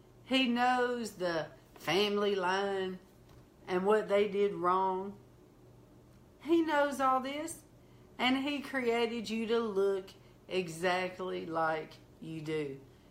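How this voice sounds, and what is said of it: Slow Southern country accent. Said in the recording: “look at my accent. I sound so country, so southern ... you're slow”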